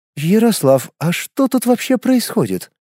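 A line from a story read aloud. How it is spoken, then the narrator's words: Curious question. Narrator (Russian): любопытным тоном спросила Романова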